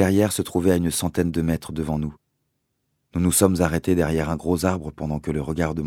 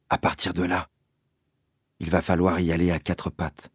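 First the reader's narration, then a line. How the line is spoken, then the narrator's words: Murmuring. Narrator (French): a-t-il murmuré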